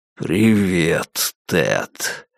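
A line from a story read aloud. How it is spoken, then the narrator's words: Rotten monstrous whisper. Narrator (Russian): прошептал монстр своим протухшим голосом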